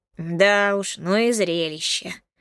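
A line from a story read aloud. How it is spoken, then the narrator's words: Displeased drawl. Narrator (Russian): недовольно протянула Егиня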